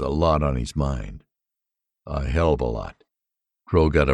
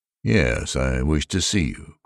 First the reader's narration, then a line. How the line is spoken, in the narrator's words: Crow said calmly